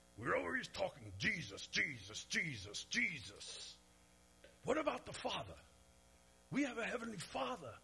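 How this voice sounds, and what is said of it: Deep voice with slight accent. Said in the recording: “he talked like this. He had a really deep voice, and he had a little bit of an accent... wow, that really sounded like him”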